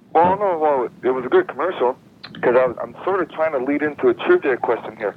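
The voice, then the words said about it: Canadian accent. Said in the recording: “your lovely Canadian accent”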